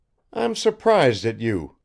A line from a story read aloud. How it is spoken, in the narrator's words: cried Arkady